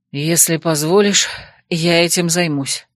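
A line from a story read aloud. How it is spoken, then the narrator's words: Breathless mutter. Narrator (Russian): буркнул от дверного проема запыхавшийся Эрей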